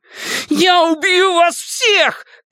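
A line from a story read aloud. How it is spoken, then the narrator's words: Shouting. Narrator (Russian): крикнул он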